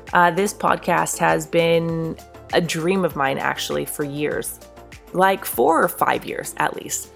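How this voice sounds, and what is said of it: Congested, croaky voice. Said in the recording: “I am extremely congested, and it sounds like I have a family of frogs living in my throat right now ... my allergies”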